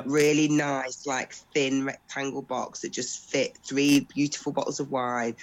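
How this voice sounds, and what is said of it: Congested, sick-sounding voice. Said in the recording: “as you can tell, I've got a bit of a cold.”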